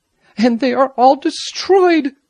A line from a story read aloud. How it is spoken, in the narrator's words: Amenchi exclaimed passionately